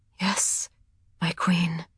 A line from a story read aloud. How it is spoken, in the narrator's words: she whispered